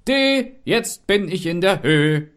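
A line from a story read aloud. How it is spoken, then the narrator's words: Rooster calling out. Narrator (German): der Hahn rief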